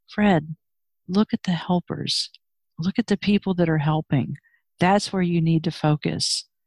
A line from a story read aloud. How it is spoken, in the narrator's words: his mother would say to him quietly